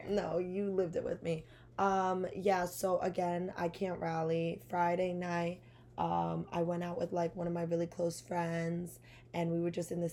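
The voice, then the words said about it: Raspy voice. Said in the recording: “voice is a little raspy... it's pretty raspy... It's pretty raspy”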